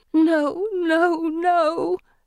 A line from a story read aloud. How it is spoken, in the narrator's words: Felicity whimpers